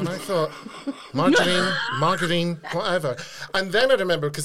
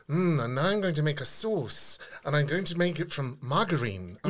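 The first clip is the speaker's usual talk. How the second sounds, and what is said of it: Mary Berry's cut-glass posh English accent. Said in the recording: “Mary was speaking in this very Downton cut glass accent.”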